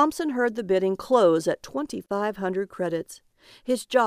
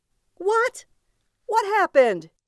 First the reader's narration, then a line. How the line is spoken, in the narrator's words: he cried out